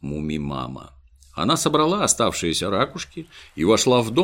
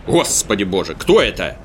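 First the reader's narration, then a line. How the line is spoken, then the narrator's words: Startled cry. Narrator (Russian): вскрикнул папа-тролль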